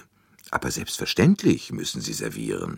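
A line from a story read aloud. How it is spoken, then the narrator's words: Plain. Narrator (German): sagte er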